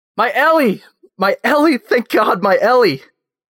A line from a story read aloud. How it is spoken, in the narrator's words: A woman, most definitely her mother, screams